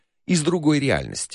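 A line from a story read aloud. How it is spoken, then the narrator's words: Calm answer, observer. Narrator (Russian): спокойно ответил наблюдатель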